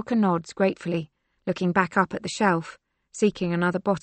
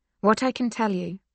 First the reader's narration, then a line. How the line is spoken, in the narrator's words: Yelena says calmly